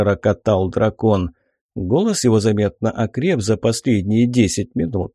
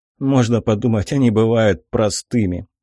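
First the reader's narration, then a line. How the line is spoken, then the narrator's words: Snorting hmph. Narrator (Russian): хмыкнул Игнат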